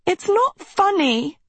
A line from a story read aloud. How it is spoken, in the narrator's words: Sophie wailed